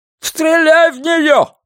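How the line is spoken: Man shouting. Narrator (Russian): закричал мужчина с зажигалкой

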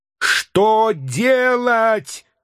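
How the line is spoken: Several voices shouting. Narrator (Russian): кричали они

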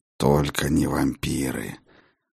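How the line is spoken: Through gritted teeth. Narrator (Russian): Процедил сквозь зубы Хедин

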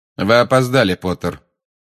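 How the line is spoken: Cold. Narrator (Russian): холодно сказал Снегг

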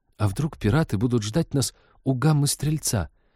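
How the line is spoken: Timid question. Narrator (Russian): робко спросила Лика

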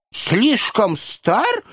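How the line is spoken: Exclaiming. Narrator (Russian): воскликнул мистер Тапмен

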